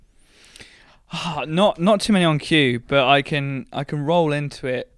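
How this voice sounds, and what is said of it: Usual voice. Nothing is said of it.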